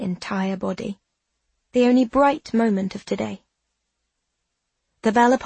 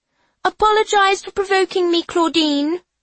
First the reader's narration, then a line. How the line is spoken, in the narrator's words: she hollers